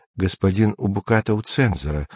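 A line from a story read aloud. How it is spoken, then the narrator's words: Timid secretary objecting. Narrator (Russian): робко возразила секретарша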